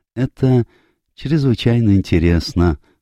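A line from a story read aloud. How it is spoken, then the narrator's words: Timid. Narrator (Russian): робко сказал Пуаро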